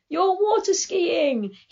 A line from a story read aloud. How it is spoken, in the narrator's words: he'd scream at me